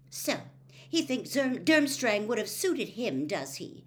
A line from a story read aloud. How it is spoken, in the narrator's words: she said angrily